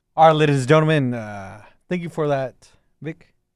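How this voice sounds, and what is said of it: Announcer-style radio voice. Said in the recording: “Is that your radio voice? ... Yeah, it's my radio voice.”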